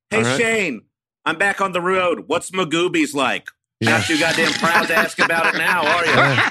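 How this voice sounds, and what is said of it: Imitates another person's voice. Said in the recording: “I'll do an impression of Ian.”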